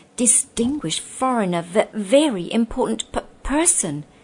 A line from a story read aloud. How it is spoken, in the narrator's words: stammered